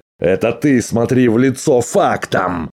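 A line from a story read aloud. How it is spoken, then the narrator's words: Yelling. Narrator (Russian): завопил Грегор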